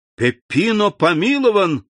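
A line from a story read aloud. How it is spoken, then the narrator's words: Shouted, roused. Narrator (Russian): закричал Андреа, сразу стряхнув с себя оцепенение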